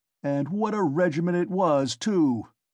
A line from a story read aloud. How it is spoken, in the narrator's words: cried Ilya Petrovitch, much gratified at this agreeable banter, though still sulky